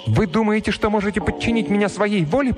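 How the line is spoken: Passionate exclamation. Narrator (Russian): пылко воскликнула она

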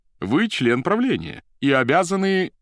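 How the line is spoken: Resonant voice. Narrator (Russian): звучным голосом сказал Поплавский

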